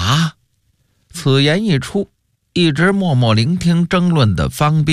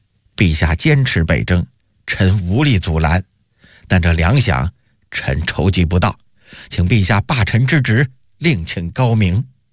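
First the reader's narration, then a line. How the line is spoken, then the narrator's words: Cold, disappointed. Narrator (Chinese): 夏元吉失望一极 冷冷地说道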